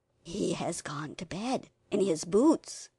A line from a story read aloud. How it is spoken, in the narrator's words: whispered Peter